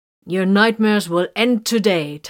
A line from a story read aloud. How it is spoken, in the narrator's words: Titus heard Vox calling in a promising tone